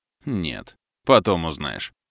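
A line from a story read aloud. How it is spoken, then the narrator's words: Snorted. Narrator (Russian): хмыкнул Олег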